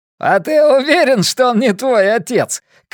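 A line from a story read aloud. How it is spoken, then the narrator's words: Shout. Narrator (Russian): крикнул Росситер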